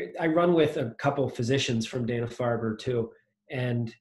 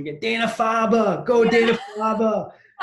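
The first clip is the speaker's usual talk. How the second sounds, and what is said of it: Imitated Boston accent. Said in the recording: “You get that great Boston accent ... It's a special sound.”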